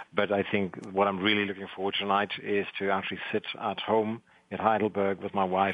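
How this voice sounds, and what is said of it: South African accent. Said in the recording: “You may hear in the accent, actually, I am from South Africa.”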